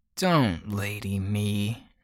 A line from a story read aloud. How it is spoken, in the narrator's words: Lottie snarls